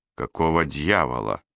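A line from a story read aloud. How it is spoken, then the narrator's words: Mutter. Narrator (Russian): пробормотал я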